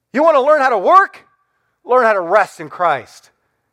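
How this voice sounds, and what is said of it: Raised, worked-up voice. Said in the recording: “I get all worked up. ... raising my voice”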